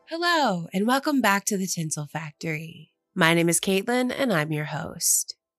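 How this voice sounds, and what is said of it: Slightly sick-sounding voice. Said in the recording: “I actually got a little sick, as you can probably hear in my voice”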